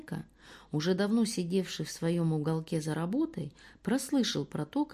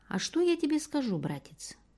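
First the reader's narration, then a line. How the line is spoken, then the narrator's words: Thin sing-song, mysterious. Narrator (Russian): проговорил своим тоненьким голоском, слегка нараспев и несколько таинственно Исайка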